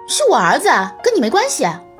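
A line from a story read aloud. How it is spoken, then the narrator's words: Loud retort. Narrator (Chinese): 丛小姐大声反驳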